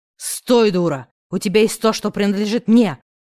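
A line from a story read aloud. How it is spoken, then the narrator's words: Enraged brute growling. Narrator (Russian): прорычал озверевший, одуревший от бессилия мужлан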